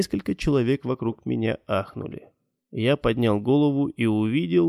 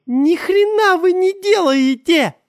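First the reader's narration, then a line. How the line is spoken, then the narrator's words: Woman screaming. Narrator (Russian): закричала женщина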